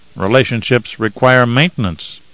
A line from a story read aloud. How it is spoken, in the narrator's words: he said